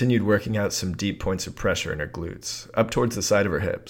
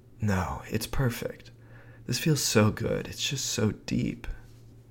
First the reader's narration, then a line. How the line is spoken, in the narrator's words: she responded in the cutest, breathy voice, saying